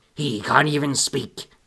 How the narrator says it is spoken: the main pirate said in a less piratey voice

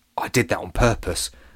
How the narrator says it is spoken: whispered Freddie

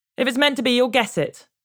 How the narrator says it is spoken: she shouted back

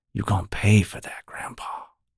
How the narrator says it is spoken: Ray whispered

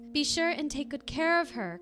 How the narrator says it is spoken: cried she

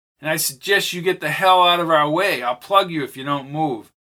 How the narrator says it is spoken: Charlie shouted

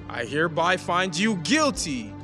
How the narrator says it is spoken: cried the king of Babylon

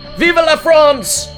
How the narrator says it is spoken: the Frenchman yelled

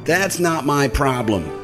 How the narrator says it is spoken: she snapped

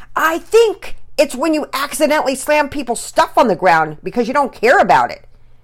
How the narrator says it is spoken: Pearson yelled

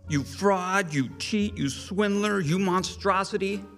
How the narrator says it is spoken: cried

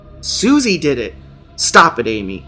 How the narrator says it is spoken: father speak so sharply

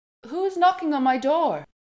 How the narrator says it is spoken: she called out

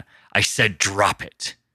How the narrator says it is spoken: he growled

